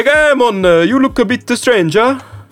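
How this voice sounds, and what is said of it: Poor put-on Jamaican accent. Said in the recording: “your Jamaican accent is so ass.”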